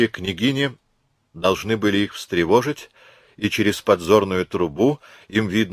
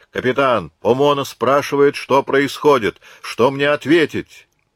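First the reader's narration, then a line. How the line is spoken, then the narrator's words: Shouting. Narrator (Russian): закричал Марсовой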